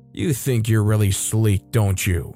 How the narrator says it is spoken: said, chuckling

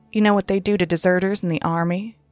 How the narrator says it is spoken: She said, her voice deadly calm

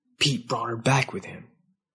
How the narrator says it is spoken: Witzer whispered

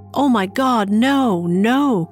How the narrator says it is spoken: cried Lucille

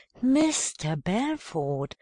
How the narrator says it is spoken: exclaimed an amazingly sweet voice

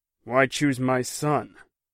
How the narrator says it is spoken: Finn said gruffly

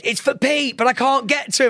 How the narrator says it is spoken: one of the girls shouted

